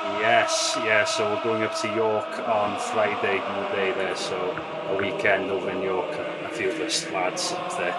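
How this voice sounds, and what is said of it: Welsh accent. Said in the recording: “he actually sounds Welsh ... He sounds more Welsh than me, definitely.”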